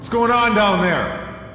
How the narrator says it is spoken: Dante shouted

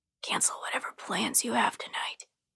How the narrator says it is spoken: Without any sort of greeting, he whispers to me

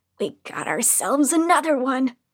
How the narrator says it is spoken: one of the women snarl

